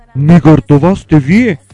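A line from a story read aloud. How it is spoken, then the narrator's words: Two voices exclaiming together. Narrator (Bulgarian): възкликнали в един глас двамата родители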